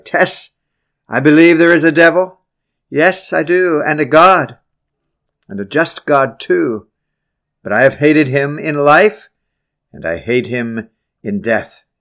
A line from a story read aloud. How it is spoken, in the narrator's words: In great rage, he cried